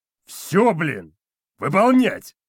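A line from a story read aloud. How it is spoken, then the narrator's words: Paralyzing bark. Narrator (Russian): Сосед рявкнул так, что волю Костика парализовало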